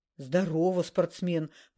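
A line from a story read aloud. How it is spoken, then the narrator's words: Pleased deep voice. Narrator (Russian): пробасил явно польщенный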